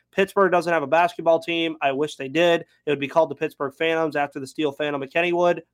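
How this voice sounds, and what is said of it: Very fast speech. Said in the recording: “I'm talking very fast”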